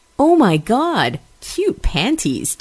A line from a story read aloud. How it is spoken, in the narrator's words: Jackie exclaims